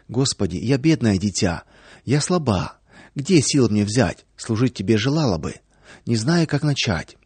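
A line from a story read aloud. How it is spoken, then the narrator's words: Soft prayerful whisper. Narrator (Russian): Во время молитвы Наташа тихонечко шептала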